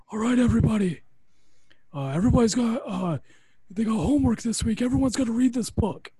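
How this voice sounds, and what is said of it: Imitates another person's voice. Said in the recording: “do my John Laurinaitis impression”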